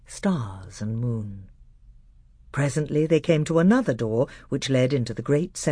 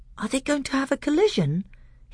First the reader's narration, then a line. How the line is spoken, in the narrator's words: he asked in an awestruck voice